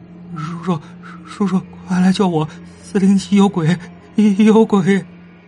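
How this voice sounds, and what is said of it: Frightened, quiet pleading voice. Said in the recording (Chinese): “惊恐又小声的说道”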